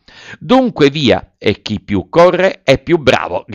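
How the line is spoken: Shouting. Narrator (Italian): gridò Pinocchio

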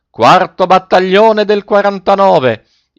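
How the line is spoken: Frantic yell. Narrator (Italian): Coretti perdé la testa e urlò

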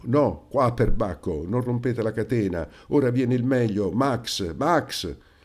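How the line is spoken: Very irritated shouting. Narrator (Italian): il Paleari gridava irritatissimo

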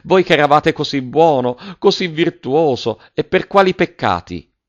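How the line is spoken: Woman exclaiming. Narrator (Italian): esclamò la signora Geltrude

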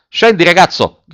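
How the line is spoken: Officer shouting. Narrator (Italian): gridò l'ufficiale

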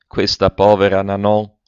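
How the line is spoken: Exclamation. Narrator (Italian): Esclamazione

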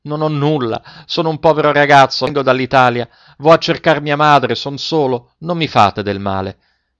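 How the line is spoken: Frantic shout. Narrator (Italian): smarrì la ragione e, correndogli incontro con le braccia aperte, gridò

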